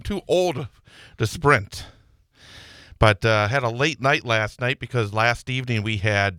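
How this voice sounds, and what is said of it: Slightly out of breath. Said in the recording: “I just sprinted, so I'm a little out of breath”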